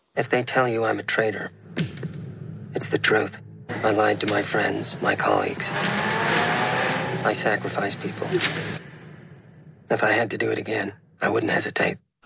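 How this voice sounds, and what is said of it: American accent. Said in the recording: “I love his American accent.”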